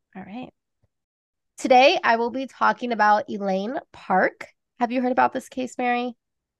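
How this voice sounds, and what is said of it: Hoarse, rough voice. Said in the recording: “sound like I smoke a pack a day. I lost my voice.”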